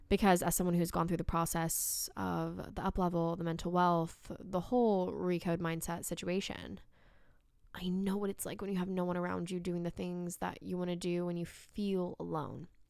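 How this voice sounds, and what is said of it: Talking very fast. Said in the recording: “I'm talking so fast.”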